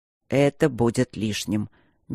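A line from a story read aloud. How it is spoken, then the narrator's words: Soft, smiling. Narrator (Russian): мягко улыбнулся Итан Бенедикт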